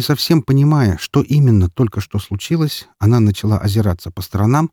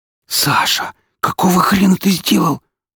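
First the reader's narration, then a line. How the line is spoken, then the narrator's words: Horrified whisper. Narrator (Russian): с ужасом прошептала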